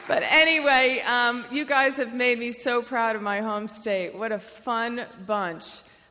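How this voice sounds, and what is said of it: New Jersey accent. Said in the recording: “I don't know if you've noticed from my accent, I am a Jersey girl.”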